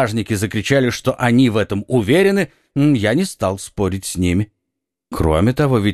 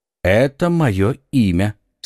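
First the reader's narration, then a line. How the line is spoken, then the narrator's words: Calm. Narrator (Russian): спокойно сказал Атос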